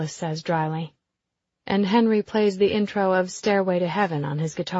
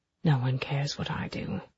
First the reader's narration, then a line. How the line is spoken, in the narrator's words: Then his voice drops to whisper to me